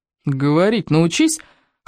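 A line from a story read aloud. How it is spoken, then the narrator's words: Snorting. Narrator (Russian): хмыкнул Сергей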